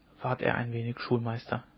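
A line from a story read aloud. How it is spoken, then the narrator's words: Quiet. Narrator (German): sagte der Deichgraf leise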